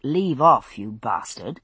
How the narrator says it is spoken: his slurred speech was caused by the fact that the lower left half of his jaw was gone

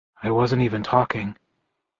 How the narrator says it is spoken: I muttered weakly

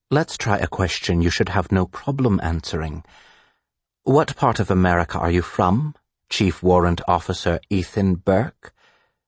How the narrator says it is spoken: the man asks in excellent English that is tinged with a UK accent

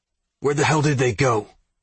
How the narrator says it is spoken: Zeke growled

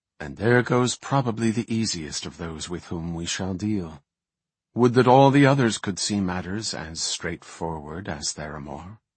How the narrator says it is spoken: the High Priestess murmured

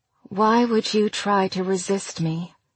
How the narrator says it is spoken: Her voice was silky

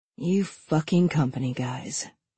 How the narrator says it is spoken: she muttered so that no one else could hear

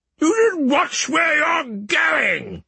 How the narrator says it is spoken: the crawling ghost shouted back

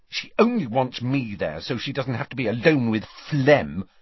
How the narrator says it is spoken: said Ginny crossly

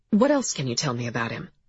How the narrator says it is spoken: said Vega, her voice steady

